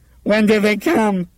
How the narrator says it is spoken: she asked him hysterically

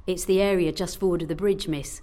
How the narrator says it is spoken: he replied quietly

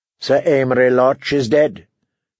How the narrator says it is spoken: Tyrion said flatly

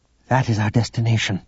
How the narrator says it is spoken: Zavri said

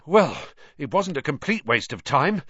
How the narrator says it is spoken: Ron panted

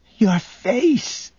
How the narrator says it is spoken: she whimpered

